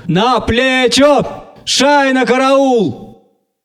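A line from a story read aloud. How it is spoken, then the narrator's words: Excited very loud shout. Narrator (Russian): радостно взволнованный, необыкновенно громкий голос крикнул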